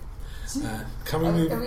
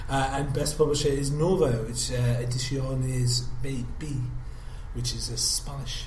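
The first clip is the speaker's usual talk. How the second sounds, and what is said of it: Poor attempted Spanish accent. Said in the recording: “my Spanish accent is appalling”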